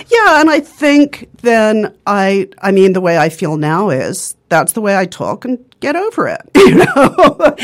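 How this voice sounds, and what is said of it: English accent. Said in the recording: “there was no really good reason that I had this English accent ... it sounds lovely ... they actually wanted to give me speech therapy lessons to give me an American accent ... she felt it was a perfectly good accent”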